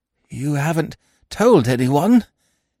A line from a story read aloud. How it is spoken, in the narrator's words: he croaked hoarsely